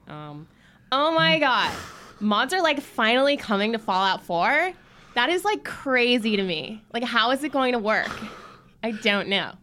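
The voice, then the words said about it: Valley Girl American accent. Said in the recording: “if I do the Valley Girl one, it's better ... That's really good.”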